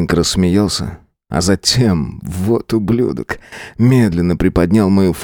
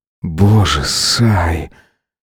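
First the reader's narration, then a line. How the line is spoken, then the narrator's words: Groan or growl. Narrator (Russian): То ли простонал, то ли прорычал он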